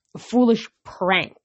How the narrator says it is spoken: Zoe growled

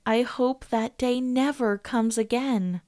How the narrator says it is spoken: Alicia felt a sigh of relief as she said

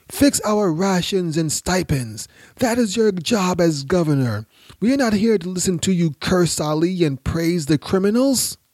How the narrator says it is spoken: cried

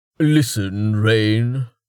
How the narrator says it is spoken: Jameis said, getting back to his feet with a grunt

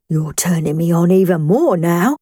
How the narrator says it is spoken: John gasped … and he said

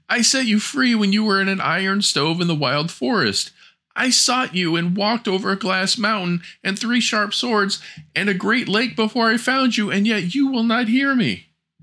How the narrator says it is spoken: She wept the whole night and cried

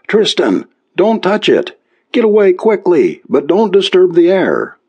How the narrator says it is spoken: called out frantically

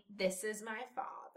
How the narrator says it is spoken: said firmly

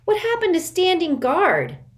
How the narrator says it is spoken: Sticky cried

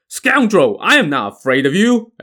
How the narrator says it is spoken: another chieftain roared

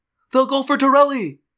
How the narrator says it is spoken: I yelled

